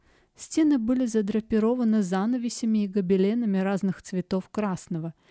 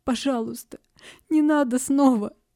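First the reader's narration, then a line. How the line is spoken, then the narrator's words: Girl sobbing. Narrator (Russian): всхлипывала девушка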